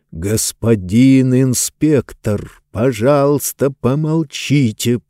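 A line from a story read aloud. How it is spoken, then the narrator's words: Hissing. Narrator (Russian): прошипел Законнор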